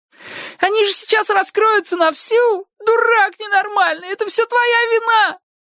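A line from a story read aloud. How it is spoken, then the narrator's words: Groaning. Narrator (Russian): застонал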